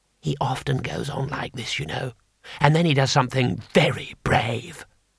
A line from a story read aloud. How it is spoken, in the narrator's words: Twoflower whispered